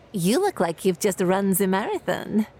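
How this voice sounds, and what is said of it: Eastern European accent. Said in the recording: “in her Eastern European accent”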